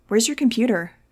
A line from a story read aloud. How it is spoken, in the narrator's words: I asked